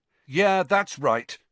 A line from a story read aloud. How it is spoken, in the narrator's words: Harry found himself shouting, having had just about enough